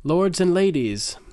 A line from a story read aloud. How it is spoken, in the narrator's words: Cersei called out loudly